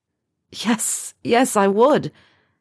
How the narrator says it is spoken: Harry cried out, his wrist trembling

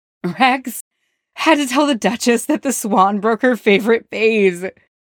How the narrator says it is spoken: Cody gasped, face flushed and eyes watery

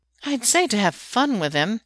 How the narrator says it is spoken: Kali remarks in a haughty tone

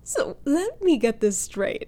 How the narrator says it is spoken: Han says once she stopped laughing at him

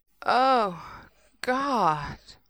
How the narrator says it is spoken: breathed

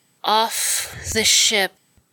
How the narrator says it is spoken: slurred sleepily

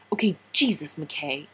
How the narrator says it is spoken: John snapped

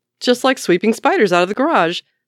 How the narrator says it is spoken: Scott declares cheerfully

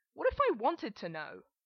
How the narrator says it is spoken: Adam yells

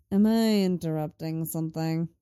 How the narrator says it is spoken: Lenny drawls from the door

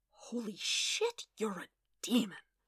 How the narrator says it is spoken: Wade breathed

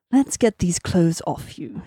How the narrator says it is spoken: she murmured

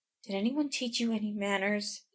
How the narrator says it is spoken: whispers in your ear huskily, sharply

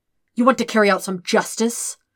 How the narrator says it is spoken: Zuko snaps, eyes blazing

